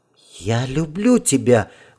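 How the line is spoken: Breathed out. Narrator (Russian): выдохнула

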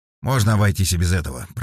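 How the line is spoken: Grumbling. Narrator (Russian): проворчал Вербин

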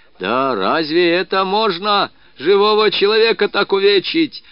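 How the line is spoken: Loud yelling. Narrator (Russian): орал он на весь кабак

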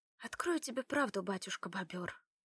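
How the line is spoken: Quiet declaration. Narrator (Russian): заявила тихо Лада

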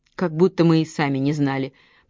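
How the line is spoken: Grumbling. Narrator (Russian): проворчала Кэсси

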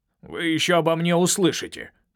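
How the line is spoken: Grumbling uncle. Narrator (Russian): проворчал ее дядя

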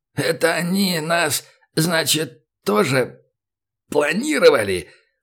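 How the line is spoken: Strained wheeze. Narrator (Russian): В паузах между потугами просипел

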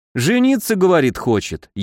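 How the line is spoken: Snide. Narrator (Russian): ехидно перевел я

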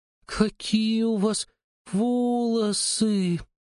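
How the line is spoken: Drawling. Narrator (Russian): протянула она

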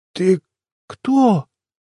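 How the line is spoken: Slurred, forced words. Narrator (Russian): выдавило из себя это чучело заплетающимся голосом

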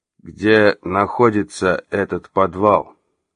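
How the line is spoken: Icy question. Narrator (Russian): ледяным тоном поинтересовался Эльдар

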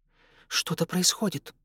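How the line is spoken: Hurried whisper. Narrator (Russian): торопливо зашептала Ивонна

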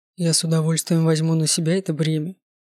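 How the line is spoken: Grim smirk. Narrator (Russian): мрачно усмехнулся Данте

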